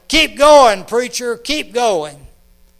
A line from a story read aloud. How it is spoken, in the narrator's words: Men all over yelled